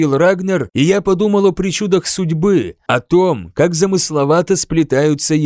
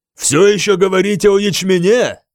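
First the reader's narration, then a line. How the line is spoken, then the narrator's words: Roared. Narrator (Russian): проревел Рагнар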